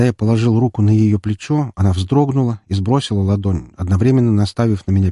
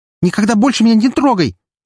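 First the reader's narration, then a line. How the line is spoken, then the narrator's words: Scream. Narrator (Russian): закричала девушка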